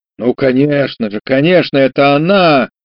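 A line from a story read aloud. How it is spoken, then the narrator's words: Ecstatic hysterical cry. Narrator (Russian): вскричал он таким восторженно-кликушеским голосом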